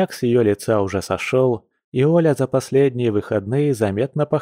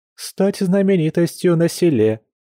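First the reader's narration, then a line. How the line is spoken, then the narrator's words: Chuckling woman. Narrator (Russian): хохотнула подруга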